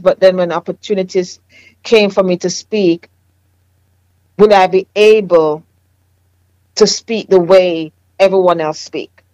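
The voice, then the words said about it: Jamaican accent. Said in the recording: “I have a Jamaican accent ... your accent is really, really, it's a really sharp”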